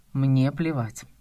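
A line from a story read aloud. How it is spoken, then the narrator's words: Calm, curt. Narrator (Russian): отрезал спокойно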